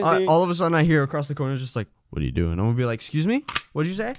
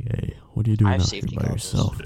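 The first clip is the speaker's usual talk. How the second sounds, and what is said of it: Very deep gruff imitated voice. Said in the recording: “he sounds like a mix. He sounds like a mix of fucking what's his name? Joe Swanson from Family Guy ... and he sounds like Satan combined ... it's like the deepest voice”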